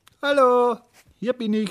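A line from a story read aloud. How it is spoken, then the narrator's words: Calling out. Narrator (German): rief er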